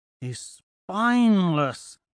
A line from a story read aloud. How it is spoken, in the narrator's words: Thraxa moans